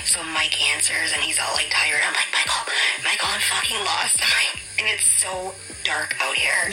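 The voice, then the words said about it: Fast, quiet, shaky speech. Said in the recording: “I'm, like, still so shaky. That's why I'm talking so fast, and I have to be low because everyone's sleeping.”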